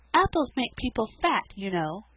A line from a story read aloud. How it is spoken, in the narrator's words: said Felicity sweetly